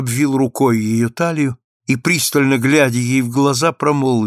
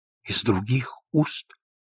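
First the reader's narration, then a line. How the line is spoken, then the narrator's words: Barely audible repetition. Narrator (Russian): едва слышно повторила она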